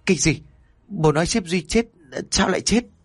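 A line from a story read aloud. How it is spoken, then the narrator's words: Trembling stammer. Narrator (Vietnamese): Chân tay của Trinh lúc này run rẩy, miệng của Trinh ấp úng nói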